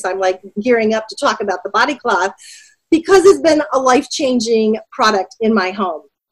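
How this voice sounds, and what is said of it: Excited, energetic speaking voice. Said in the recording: “I get pretty excited. You can probably already tell by my voice.”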